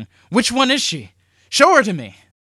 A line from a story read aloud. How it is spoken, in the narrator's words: shouting